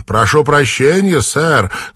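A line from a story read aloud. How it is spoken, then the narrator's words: Shouting. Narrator (Russian): крикнула американка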